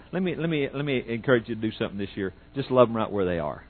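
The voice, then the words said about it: Oklahoma twang. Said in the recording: “That's my, you know, Oklahoma twang there”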